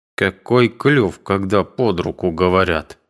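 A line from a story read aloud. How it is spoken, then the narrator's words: Angry reply. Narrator (Russian): отвечал тот сердито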